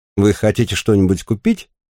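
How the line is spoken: Plain. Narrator (Russian): спросила женщина

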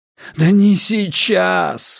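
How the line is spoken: Pleading. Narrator (Russian): взмолился поэт

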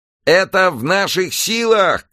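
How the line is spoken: Shouting from stage. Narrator (Russian): кричал со сцены известный поп-музыкант

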